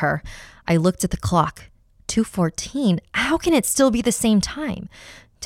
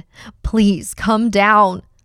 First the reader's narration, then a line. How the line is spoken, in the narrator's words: I pleaded with her